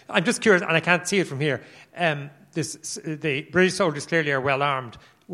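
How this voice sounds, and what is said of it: Speaks with a noticeable non-local accent. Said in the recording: “as you detect from my accent.”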